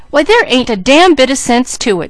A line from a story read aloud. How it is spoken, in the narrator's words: she cried